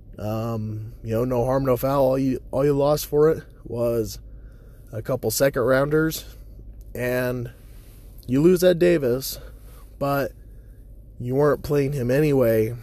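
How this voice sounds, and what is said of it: Strained, failing voice. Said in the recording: “lose my voice again. It's already starting to give out on me... my nasty sounding voice right now”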